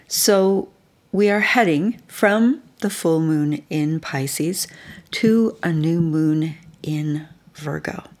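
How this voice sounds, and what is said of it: Slightly rough, hoarse voice. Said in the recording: “my voice is a little rough tonight... I might sound a little bit different tonight than usual”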